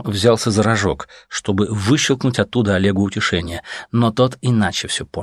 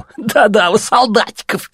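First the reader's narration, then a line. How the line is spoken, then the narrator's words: Laughing. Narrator (Russian): засмеялся другой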